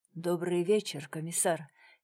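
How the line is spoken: Quiet. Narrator (Russian): тихо произнес Дронго

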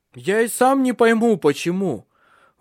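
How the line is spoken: Shouted reply. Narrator (Russian): Выкрикнул в ответ

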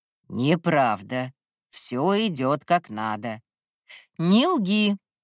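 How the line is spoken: Sudden sharp bark. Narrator (Russian): неожиданно рявкнула на него Веста

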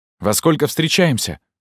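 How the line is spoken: Hurried question. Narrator (Russian): спросил он торопливо

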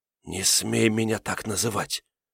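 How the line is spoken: Whisper. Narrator (Russian): прошептала

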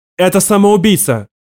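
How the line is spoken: Shouted. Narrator (Russian): крикнула жнец Кюри

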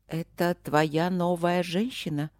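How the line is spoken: Trembling voice, blind woman. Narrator (Russian): спросила слепая дрожащим голосом

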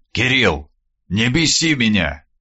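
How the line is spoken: Quiet, flat tone. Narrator (Russian): Тихим бесцветным тоном произнес Скуратов

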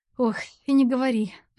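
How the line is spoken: Sighing. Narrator (Russian): вздохнула Кира

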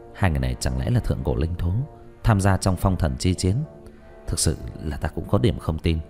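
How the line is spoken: Whisper. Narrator (Vietnamese): Diệp Thiếu Dương thì thào

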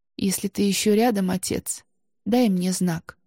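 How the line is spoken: Quiet tearful woman. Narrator (Russian): тихо проговорила Анна с заплаканными очами

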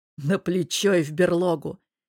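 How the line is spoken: Restrained chuckle. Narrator (Russian): сдержанно хохотнул друг

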